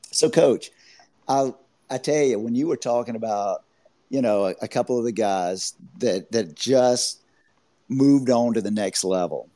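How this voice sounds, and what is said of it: Raspy, hoarse voice. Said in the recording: “excuse my voice. I have been sick the last couple of days. I apologize for having such a, a raspy voice”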